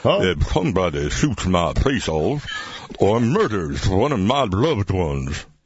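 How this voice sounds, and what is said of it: Claude Pepper impersonation, old politician voice. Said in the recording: “best impersonation you've ever done ... a Claude Pepper impersonation ... Imagine a really old politician.”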